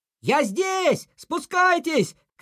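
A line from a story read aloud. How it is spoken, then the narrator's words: Shouted reply. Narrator (Russian): крикнул в ответ Снеж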